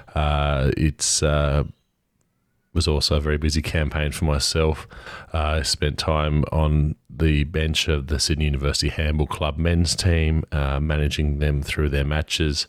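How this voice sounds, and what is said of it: Croaky, crackly voice. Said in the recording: “Apologise if my voice is a little croaky, a bit crackly.”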